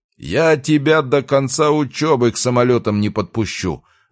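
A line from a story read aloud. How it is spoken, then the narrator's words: Tense release yelling. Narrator (Russian): орал Михайлович, выплескивая скопившееся напряжение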